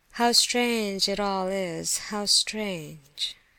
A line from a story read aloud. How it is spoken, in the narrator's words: he muttered, melancholy enough now